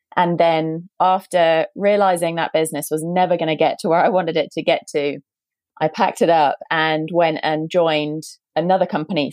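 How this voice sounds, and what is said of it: British accent. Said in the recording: “as you might be able to tell from my accent, based in the UK”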